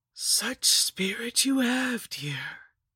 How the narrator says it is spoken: she rasped

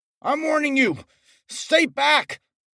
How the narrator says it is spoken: I shouted as he stumbled closer

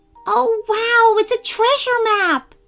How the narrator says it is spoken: squealed

